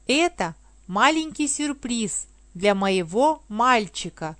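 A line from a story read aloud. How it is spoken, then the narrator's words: Plain. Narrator (Russian): сказала она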